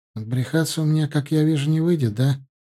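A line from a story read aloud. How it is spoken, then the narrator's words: Sad smirking tone. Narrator (Russian): ухмыльнулся грустно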